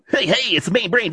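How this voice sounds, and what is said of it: Radio DJ announcer voice. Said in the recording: “radio voice”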